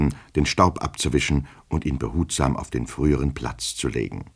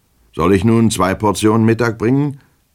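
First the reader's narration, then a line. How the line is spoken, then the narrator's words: Careless gruff question. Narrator (German): fragte er nachlässig mit barscher Stimme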